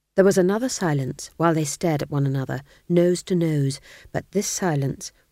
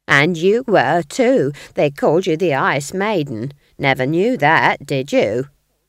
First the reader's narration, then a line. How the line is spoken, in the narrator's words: sneered Nanny